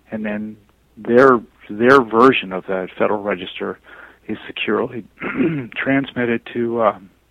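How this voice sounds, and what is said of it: Strained, failing voice. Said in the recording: “losing my voice”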